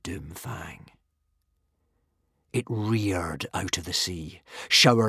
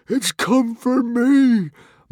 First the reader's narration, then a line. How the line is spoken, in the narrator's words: moaned Norbert the Nutjob in a tremble of fear